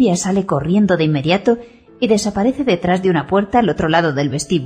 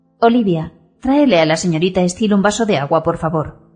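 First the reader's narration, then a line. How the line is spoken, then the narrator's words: Serious tone. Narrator (Spanish): dice en tono serio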